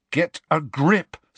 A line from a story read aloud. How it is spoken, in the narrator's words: said Harry sternly